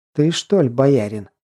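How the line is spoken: Pleasant but firm voice. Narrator (Russian): произнесла довольно приятным, но твердым голосом

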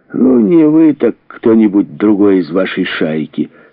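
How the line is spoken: Plain. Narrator (Russian): сказал Кенси

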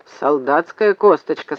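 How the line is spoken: Plain. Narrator (Russian): сказал Зев

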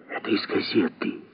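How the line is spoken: Muffled whisper. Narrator (Russian): сказала Сельма шепотом, прикрывши микрофон ладонью

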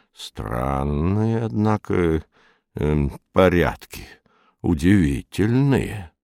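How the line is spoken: Low muttering. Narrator (Russian): Юрковский вполголоса приговаривал

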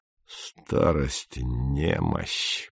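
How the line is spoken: Muttered. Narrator (Russian): пробормотал он

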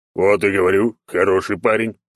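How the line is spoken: Deep bass voice, bear. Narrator (Russian): пробасил косолапый

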